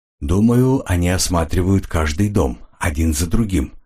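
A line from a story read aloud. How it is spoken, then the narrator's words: Plain. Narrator (Russian): ответил Ренли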